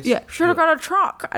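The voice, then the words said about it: Imitated voice of a grumbling man. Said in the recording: “are you doing your Josh voice? ... That's my Josh voice.”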